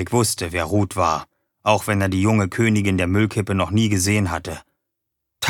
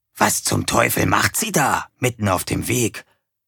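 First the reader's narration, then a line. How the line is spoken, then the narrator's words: Whispering. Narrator (German): flüsterte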